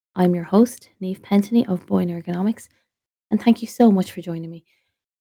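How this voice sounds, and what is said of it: Slightly off, strained voice. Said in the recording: “if my voice is a little bit off ... it's having a little bit of an impact on my voice and on my throat”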